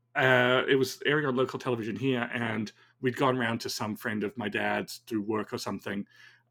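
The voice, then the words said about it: Weird mixed accent. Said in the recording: “why I have a weird mishmash accent”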